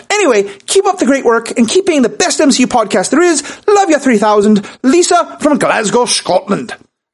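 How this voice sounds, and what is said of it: Put-on Scottish accent. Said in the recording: “I kind of have a little bit of the Scottish feeling ... forgive me ... A bold move, going with the accent all the way through.”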